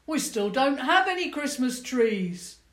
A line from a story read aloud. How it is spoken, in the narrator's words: a voice from the crowd shouted